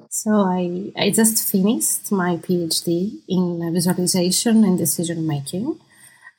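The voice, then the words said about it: Greek accent. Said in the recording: “I will be the Greek accent”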